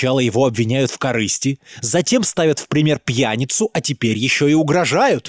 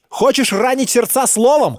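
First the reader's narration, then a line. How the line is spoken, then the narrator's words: Shouted. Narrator (Russian): крикнул он старику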